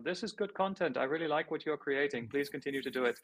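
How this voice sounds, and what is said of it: Put-on unidentified accent. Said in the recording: “I don't know what accent that was. I won't do that again.”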